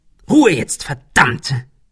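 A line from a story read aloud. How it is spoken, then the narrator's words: Snapped. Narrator (German): fauchte Ben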